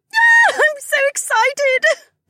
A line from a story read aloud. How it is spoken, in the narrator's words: Becca squealed